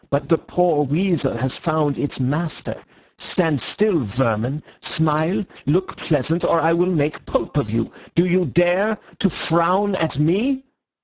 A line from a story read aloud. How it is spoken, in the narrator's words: he cried